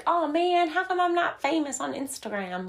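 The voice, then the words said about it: Briefly puts on an unidentified accent. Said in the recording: “I don't know whose accent that was. I have no idea where that came from.”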